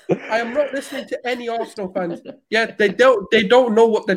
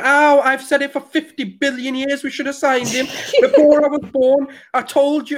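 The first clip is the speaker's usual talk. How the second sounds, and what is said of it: Put-on Scouse accent. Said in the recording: “That a Scouse accent? ... Scouse.”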